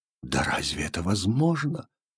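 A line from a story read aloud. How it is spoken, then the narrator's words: Absent-minded whisper. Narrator (Russian): шептал он бессознательно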